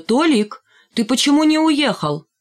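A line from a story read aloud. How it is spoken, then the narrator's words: Shouted. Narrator (Russian): Тетя Клава крикнула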